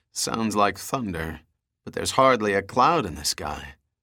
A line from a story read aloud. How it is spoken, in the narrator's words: Shaking his head, he muttered